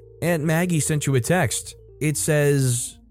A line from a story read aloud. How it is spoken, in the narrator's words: called out